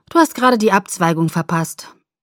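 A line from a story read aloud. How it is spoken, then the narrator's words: Calm. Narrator (German): sagte er ruhig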